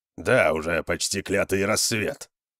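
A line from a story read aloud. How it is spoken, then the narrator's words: Grumbling. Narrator (Russian): проворчал Конан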